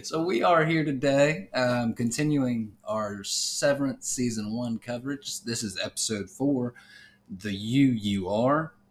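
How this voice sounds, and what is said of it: Slow Southern American accent. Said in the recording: “On your southern pronunciation. ... everything's a little bit slower. ... Kind of like molasses just dripping out of mouth.”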